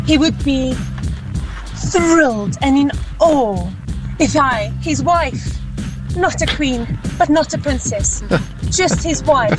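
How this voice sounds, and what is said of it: Fairly good English accent. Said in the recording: “your English accent is pretty good”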